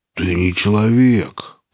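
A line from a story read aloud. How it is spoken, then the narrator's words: Annoyed grumble. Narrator (Russian): проворчал раздосадованный сталкер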